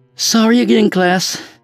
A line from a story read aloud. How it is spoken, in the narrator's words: she said breathlessly